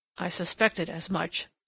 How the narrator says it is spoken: said Germain in an undertone

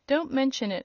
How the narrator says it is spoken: returned the demon dryly

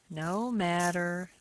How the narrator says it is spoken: said the boy sullenly

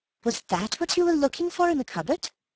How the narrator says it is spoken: said Bill eagerly

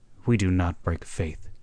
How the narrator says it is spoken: said Hagthorpe firmly, so firmly that he quieted them

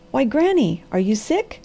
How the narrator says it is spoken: he cried anxiously

